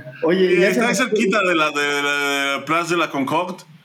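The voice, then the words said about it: Put-on accent. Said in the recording (Spanish): “Ese pinche acento”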